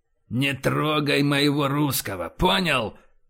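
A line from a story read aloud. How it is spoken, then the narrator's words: Growling. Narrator (Russian): прорычал Боровский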